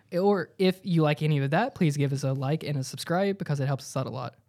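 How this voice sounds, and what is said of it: Polished customer service voice. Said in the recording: “That was my my customer service voice.”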